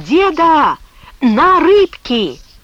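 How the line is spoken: Shouting after someone. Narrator (Russian): Мишка крикнул вдогонку

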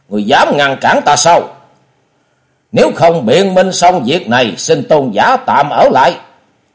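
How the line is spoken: Angry. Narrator (Vietnamese): Quỳnh Long đạo trưởng giận dữ nói

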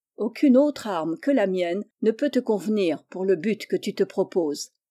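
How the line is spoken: Plain. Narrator (French): lui dit-il

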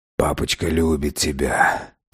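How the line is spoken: Muffled whisper. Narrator (Russian): прошептал я, уткнувшись лицом в шерсть Фина

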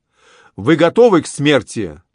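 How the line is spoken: Young man's shout. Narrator (Russian): молодой граф крикнул

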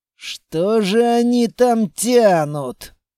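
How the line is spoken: Grumbling. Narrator (Russian): проворчал квартник

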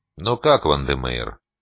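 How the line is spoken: Feigned indifference. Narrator (Russian): как можно более равнодушным тоном поинтересовался я

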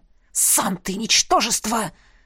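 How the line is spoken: Hissed through teeth. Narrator (Russian): прошипел бывший раб сквозь зубы

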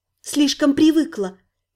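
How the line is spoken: Quiet mutter. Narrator (Russian): негромко пробормотала

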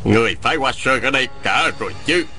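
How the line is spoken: Resonant, clear, powerful shout. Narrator (Vietnamese): Tiếng quát này vừa dõng dạc vừa thanh thoát, nội lực thâm hậu làm chấn động cả một vùng sơn cốc

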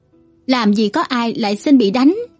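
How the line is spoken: Hearty laughter. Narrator (Vietnamese): Đàm Vân Sơn bật cười thành tiếng, tiếng cười sảng khoái

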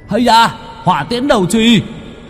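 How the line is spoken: Loud shout. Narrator (Vietnamese): Tử Vu Vụ Mai hét to một cái

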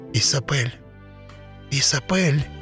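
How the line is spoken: Whisper. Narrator (Russian): прошептал он

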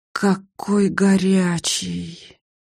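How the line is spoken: Hissing as if burned. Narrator (Russian): зашипела, словно обожглась

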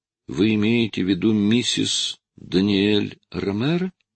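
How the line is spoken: Uncertain girl's voice. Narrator (Russian): неуверенно проговорила девочка, словно не расслышала просьбу

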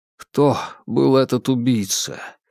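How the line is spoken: Quiet question. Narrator (Russian): тихо спросил Джеймс

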